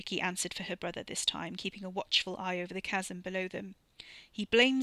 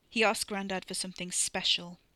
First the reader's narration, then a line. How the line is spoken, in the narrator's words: Wes said, his voice flat